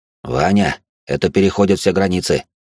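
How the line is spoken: Icy. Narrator (Russian): он ледяным тоном сказал

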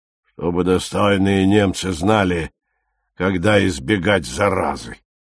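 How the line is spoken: Grumbling. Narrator (Russian): проворчал Гертаубер

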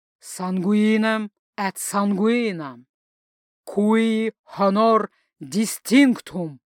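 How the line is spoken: Exhaled at last. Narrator (Russian): Выдохнул он наконец

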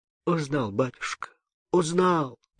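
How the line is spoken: Stammering mutter. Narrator (Russian): пробормотал, заикаясь, Кудимыч

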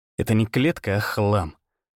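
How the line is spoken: Muttered. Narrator (Russian): буркнул

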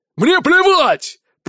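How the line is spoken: Thundered. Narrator (Russian): прогремел Аргирис

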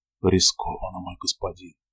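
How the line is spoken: Whispering. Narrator (Russian): прошептал он

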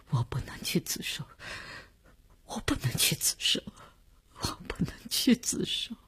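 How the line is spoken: Sobbing, breaking down, repeating. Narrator (Chinese): 李大公哭得悲悲切切，他的精神看上去已经濒于崩溃，只是不停地重复着

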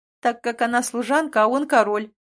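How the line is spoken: Pleased singsong. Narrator (Russian): довольно пропела

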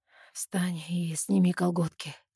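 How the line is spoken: Hoarse command. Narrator (Russian): хрипло приказывает он

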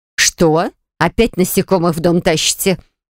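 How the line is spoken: Stern but kindly grumble. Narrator (Russian): Грозно хмуря брови бурчит мама, но все равно по-доброму

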